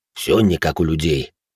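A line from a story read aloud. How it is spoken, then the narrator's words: Displeased grumble, big brute. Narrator (Russian): буркнул громила недовольно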